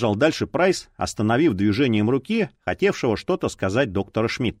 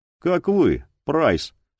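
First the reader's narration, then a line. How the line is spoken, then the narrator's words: Dry reply. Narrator (Russian): сухо ответил тот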